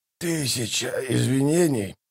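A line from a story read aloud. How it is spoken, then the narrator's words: Hoarse old man's rasp. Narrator (Russian): прохрипел старик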